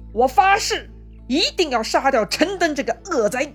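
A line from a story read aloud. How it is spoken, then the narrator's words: Furious shout. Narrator (Chinese): 吕布是大怒，大喊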